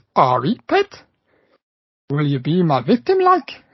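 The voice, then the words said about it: Weak put-on Geordie accent. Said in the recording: “That's my worst Geordie accent ever.”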